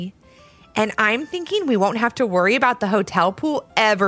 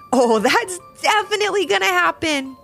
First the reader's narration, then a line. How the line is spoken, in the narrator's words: giggled Ivy